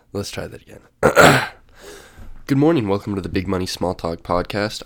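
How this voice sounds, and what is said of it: Congested, snotty sick-sounding voice. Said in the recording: “I'm a little sick, so my voice is a little snotty”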